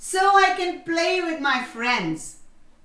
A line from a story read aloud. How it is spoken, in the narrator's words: The rabbit cheerfully answered